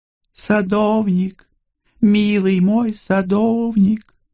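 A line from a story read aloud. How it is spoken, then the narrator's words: Crystal-clear singing voice. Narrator (Russian): хрустальным голосом пропела Миралинда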